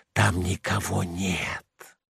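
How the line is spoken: Growing whisper. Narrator (Russian): лопухи все яснее шептали

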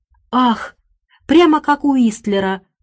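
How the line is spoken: Exclamation. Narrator (Russian): воскликнула миссис Деллоуэй

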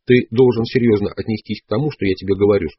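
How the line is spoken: Plain. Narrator (Russian): сказал он

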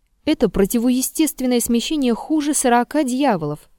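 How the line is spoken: Exclaimed. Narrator (Russian): воскликнул Петр

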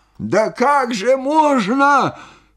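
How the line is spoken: Amazed shout. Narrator (Russian): крикнул он, изумляясь моему спокойствию

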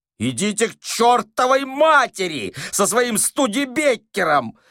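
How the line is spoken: Yell. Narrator (Russian): заорал Остап

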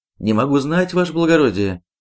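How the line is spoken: Timid answer. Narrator (Russian): робко отвечает Никит

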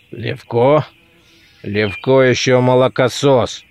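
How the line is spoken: Hoarse half-voice, tall man. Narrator (Russian): говорил хриплый в полголоса высокий человек

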